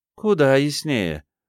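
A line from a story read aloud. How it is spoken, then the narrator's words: Grim. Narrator (Russian): мрачно произнесла Филиппа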